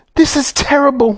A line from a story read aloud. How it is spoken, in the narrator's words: wailed Mrs